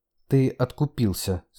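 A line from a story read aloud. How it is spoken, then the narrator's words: Calm. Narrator (Russian): спокойно ответил Марк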